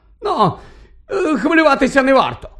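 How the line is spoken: Exclaiming. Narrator (Ukrainian): вигукнув Фадж

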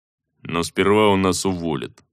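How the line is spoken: Grumbling. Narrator (Russian): проворчал первый

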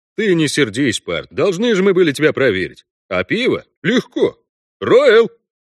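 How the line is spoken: Powerful deep dwarf shout. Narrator (Russian): Бюскермолин выкрикнул могучим басом, который мог обитать только в широченной гномьей груди

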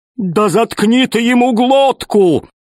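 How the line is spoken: Yell. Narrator (Russian): завопил весельчак У

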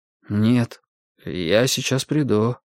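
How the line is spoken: Mumbling. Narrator (Russian): промямлил Сюэли

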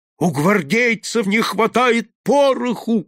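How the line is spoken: Old man shouting. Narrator (Russian): кричал старик

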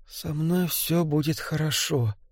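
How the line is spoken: Barely audible, confident. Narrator (Russian): говорил он едва слышно, но в голосе звучала непоколебимая уверенность

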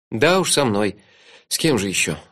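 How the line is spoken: Sighed. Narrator (Russian): вздохнул я

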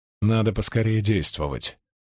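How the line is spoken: Gloomy. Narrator (Russian): мрачно говорила Мин

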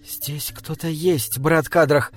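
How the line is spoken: Whisper. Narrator (Russian): шепнула Мириамель

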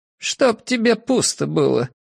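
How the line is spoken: Grumbling in unison. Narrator (Russian): буркнули они в один голос

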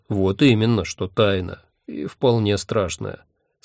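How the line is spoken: Calm agreement. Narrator (Russian): спокойно согласился он

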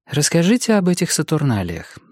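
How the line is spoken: Calm request. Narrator (Russian): спокойно попросила Марго

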